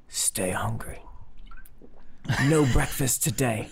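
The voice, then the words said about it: Inaccurate action-star English accent. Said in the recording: “That is not the English. ... No, that's not John Oliver's accent. That's like I don't know, an action star Englishman.”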